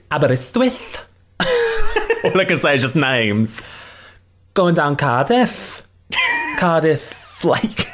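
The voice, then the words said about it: Put-on Welsh accent. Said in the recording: “Can you do a Welsh accent? ... You sound like K. Tom Jones.”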